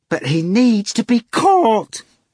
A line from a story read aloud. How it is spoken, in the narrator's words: Ivan cried